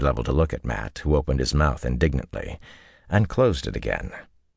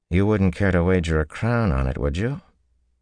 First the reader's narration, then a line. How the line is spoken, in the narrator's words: Tom chuckled